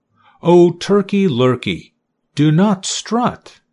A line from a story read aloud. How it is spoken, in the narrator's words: cried Goosey Lucy